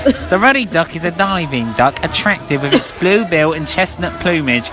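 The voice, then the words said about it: Put-on accent drifting into Bristol. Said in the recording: “I don't know what's happening to this accent at all. It's going Bristol.”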